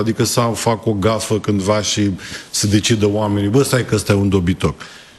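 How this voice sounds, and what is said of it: Romanian regional accent, slight Moldovan. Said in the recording (Romanian): “Ți-ai păstrat accentul, n-a plecat cu totul. ... Și este un farmec ... Normal că nu e, dar știu că avem o leacă.”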